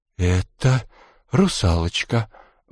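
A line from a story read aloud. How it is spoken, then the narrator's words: Strained, half-frozen. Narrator (Russian): выдавил чуть оттаивший Родион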